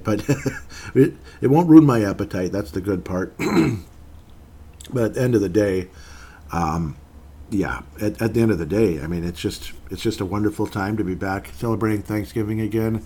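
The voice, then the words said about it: Dry, slightly rough voice. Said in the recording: “my voice is a little bit different, so my throat's kind of dry and weird ... I'm having a coughing fit here”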